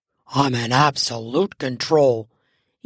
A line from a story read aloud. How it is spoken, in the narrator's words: he insisted in a growl